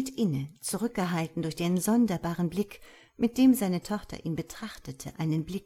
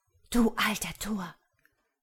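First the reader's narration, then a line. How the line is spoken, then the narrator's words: Low, blunt voice. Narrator (German): sagte sie mit leiser Stimme, ohne sich um irgendwelche Rücksichtnahme zu bekümmern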